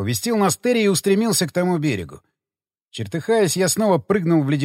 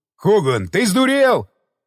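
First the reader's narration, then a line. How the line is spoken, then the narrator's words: Yelling. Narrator (Russian): заорал Дик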